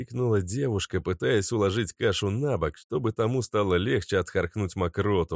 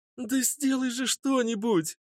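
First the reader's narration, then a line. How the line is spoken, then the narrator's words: Shouting. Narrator (Russian): Закричала на брата Вика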